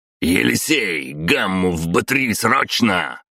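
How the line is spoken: Barked order. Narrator (Russian): рявкнул Воробьев

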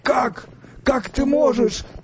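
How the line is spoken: Whispered. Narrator (Russian): прошептал новый сфинкс

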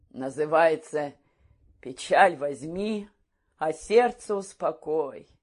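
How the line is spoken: Sigh. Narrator (Russian): вздохнула Парамоновна

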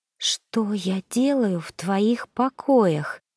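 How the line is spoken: Whisper. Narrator (Russian): прошептала

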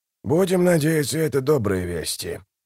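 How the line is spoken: Muttering. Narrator (Russian): пробурчал Дуджик

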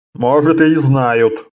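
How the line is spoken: Snort. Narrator (Russian): хмыкнул Фионос

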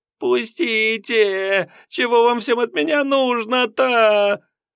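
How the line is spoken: Breathless hoarse voice. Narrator (Russian): тяжело дыша, Семенов, осекшимся от бега хриплым голосом

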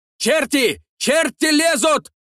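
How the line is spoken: Shouting amid battle. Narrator (Russian): Закричали в суете боя

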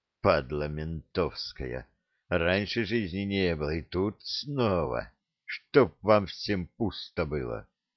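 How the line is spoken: Distant muttering. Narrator (Russian): До моего слуха донеслось бормотание паромщика

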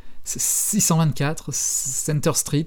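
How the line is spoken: Stammering. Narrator (French): bafouilla Hélène

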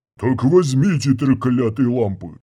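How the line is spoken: Growled. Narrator (Russian): прорычал Панг

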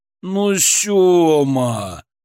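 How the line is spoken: Groaning in unison. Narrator (Russian): Хором простонали Суслик и Славик

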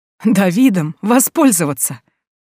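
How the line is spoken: Sudden laughter. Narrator (Russian): вдруг рассмеялась госпожа Хатуна

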